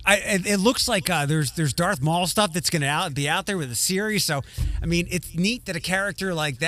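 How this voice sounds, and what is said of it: Usual voice. Nothing is said of it.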